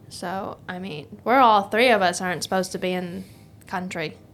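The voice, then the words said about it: Speaks in a put-on accent. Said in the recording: “Why did I say it in this accent?”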